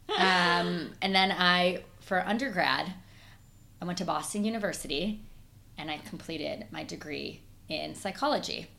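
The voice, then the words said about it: Midwestern Chicago twang. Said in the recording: “I'm originally from Chicago. I'm a Midwesterner, so when you hear that twang, that's why.”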